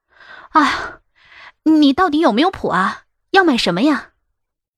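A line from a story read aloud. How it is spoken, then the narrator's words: Breathless. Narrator (Chinese): 我喘着气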